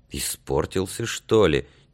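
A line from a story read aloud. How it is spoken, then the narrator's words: Quiet. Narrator (Russian): тихонько сказал он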